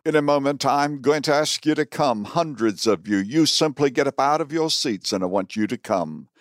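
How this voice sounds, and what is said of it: Southern American accent. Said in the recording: “He has a rather southern accent.”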